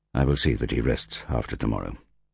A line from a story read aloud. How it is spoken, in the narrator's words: said Hogan